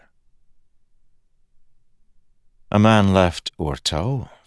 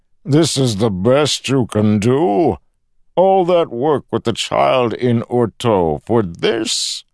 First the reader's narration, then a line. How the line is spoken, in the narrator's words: Kelsier grunted